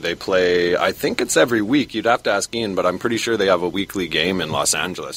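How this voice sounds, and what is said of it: Canadian accent. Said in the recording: “I'm pretty sure from the accent, Don, that he is Canadian ... they have a Canadian accent all the way”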